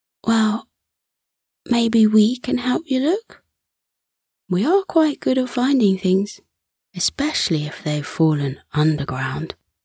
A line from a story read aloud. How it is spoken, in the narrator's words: Bobby suggested sweetly